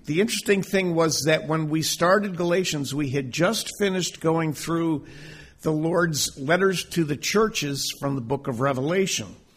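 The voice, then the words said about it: Hoarse, strained voice. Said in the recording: “this could be a lot of water this morning. I'm losing my voice already.”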